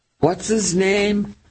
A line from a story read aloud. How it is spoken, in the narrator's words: Teddy yelled